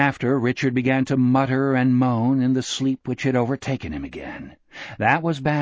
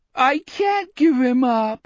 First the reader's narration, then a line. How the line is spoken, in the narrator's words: Richard moaned in the weepy, bewildered voice of a 5-year-old